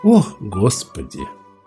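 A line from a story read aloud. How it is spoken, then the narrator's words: Sighing. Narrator (Russian): Король вздохнул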